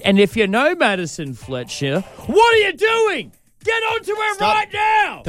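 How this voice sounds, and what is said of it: Yelling loudly. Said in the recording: “Don't yell at them, please. ... Nobody wants to be yelled at on a Monday morning.”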